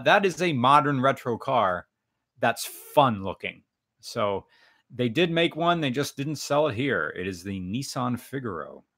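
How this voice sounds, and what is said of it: American accent. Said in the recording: “sorry for my American accent”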